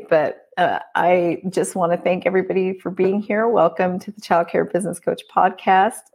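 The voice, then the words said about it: Losing voice, strained. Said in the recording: “As you can hear, I am losing my voice”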